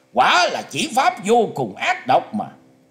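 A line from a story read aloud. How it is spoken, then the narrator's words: Loud shout. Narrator (Vietnamese): Quái nhân mặt vàng quát to lên rằng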